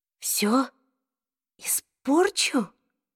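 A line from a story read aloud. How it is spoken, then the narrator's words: Whisper. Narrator (Russian): прошептала Клэри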